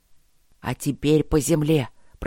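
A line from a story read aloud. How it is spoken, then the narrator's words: Hiss. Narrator (Russian): прошипел он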